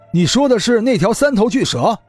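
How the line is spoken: Involuntary exclamation. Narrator (Chinese): 唐旭东也禁不住叫了出来

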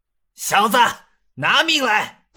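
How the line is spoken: Low growl. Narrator (Chinese): 段祺坤轻吼一声

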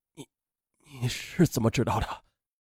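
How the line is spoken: Trembling, shaken question. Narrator (Chinese): 阮建军明显的全身一阵痉挛，他颤声的问

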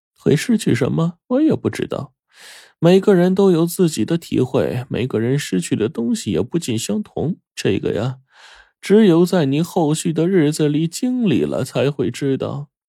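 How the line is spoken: Sighing. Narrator (Chinese): 火烈叹了口气，随后说道

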